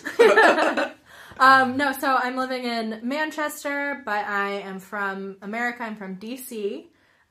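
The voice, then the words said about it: American accent. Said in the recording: “who hasn't picked up on the accents? ... So I'm American.”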